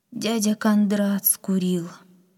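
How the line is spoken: Sad grandmother. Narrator (Russian): грустно ответила бабушка

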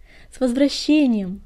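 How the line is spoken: Joyful purring. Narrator (Russian): радостно промурлыкала синяя звезда

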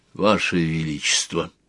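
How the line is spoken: Whispering. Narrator (Russian): зашептал Глэрд

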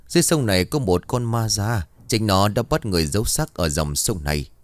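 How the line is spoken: Sighing. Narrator (Vietnamese): Thầy Lương bấy giờ thở dài rồi bắt đầu bảo

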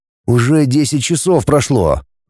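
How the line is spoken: Sullen grumble. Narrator (Russian): проворчал я угрюмо

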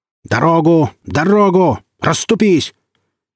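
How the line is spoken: Booming, commanding voice. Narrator (Russian): царевич зычным голосом

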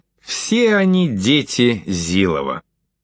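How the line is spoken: Calm. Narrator (Russian): спокойно сказал

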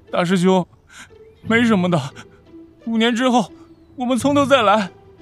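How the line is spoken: Tearful, comforting. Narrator (Chinese): 乐无红着眼眶对乐月说

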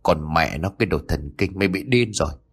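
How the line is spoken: Muttering. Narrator (Vietnamese): Thành miệng lẩm bẩm

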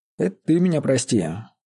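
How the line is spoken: Sighing. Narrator (Russian): вздохнул Вольгость верещага

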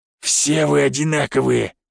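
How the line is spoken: Hoarse prisoner replying. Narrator (Russian): хрипло отозвался заключенный

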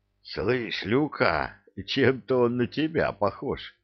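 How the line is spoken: Wheezed, spitting sand. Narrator (Russian): просипел Кевин, отплевываясь песком

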